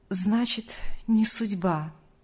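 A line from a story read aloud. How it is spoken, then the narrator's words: Sighing. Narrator (Russian): вздохнул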